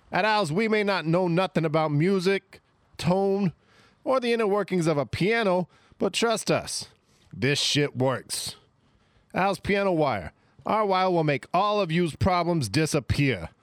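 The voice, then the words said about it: Canadian accent shifting into Italian. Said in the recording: “There's a Canadian at the start, and then you got into the Italian.”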